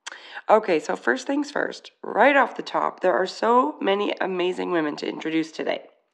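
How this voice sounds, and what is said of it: Raspy voice from a cold. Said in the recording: “my raspy, I've got a cold voice”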